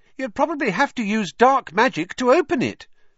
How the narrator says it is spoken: piped up Parvati Patil

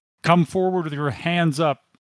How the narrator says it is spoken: he yells at you

